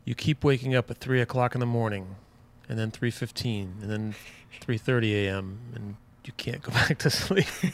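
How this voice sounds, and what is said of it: Southern American accent. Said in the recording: “There I go with the Southern accent again.”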